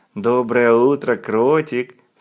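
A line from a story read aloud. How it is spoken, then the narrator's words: Plain. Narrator (Russian): сказала оно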